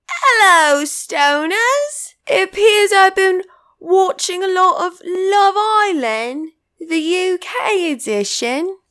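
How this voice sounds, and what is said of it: Put-on British accent. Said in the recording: “Can't stop doing the bloody accent. It's fucking annoying, isn't it?”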